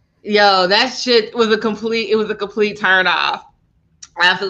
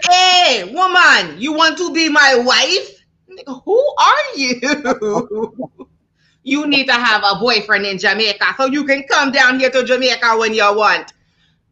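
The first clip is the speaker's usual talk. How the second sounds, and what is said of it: Convincing put-on Jamaican accent. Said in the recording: “She's smoking her Jamaican accent, by the way. Killing her fucking Jamaican accent, by the way.”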